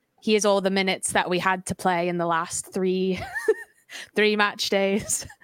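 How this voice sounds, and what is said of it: Impression with put-on northern accent. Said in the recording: “Why is she from the north in my head? That's not her accent.”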